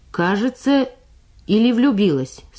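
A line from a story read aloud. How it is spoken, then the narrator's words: Stern female question. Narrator (Russian): строго спросила младший сержант Самойленко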